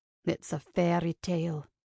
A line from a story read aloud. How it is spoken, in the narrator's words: Kincaid murmured